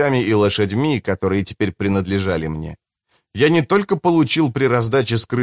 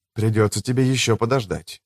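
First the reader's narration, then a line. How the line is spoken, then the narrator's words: Whisper. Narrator (Russian): прошептал я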